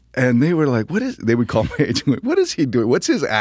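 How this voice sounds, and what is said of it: Usual voice. Nothing is said of it.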